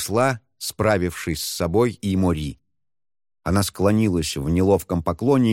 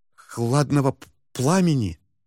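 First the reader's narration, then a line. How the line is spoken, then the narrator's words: Frightened repetition. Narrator (Russian): испуганно повторила Мори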